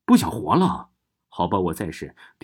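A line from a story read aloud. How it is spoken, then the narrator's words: Low voice imitating eerie tone. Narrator (Chinese): 我压低声音，还是尽量模仿贞子的语调说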